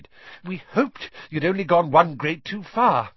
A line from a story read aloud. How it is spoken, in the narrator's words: Weasley panted